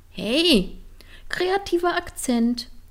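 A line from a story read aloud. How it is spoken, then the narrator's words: Calling, bursting into laughter. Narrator (German): rief Line und brach ein schallendes Lachen aus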